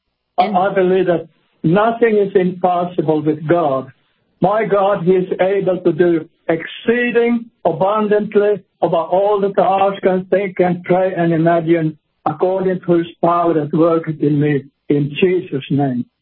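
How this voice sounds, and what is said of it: Slight Swedish-Finnish accent. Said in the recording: “You can probably hear a little bit of an accent, and he speaks Swedish by way of Finland, because he grew up in Finland”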